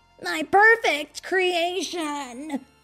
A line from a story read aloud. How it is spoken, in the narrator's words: Eggman yelled